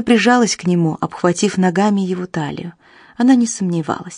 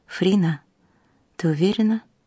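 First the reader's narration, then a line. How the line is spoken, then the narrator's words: Whisper. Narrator (Russian): прошептал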